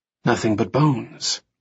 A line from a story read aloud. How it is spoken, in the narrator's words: Remy whispered